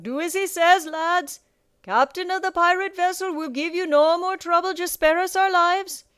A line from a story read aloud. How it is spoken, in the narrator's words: Captain Nightlighter called out